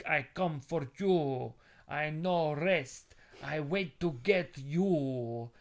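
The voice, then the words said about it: Put-on Brazilian accent, broken English. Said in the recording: “where's the accent from? ... He's Brazilian, I think.”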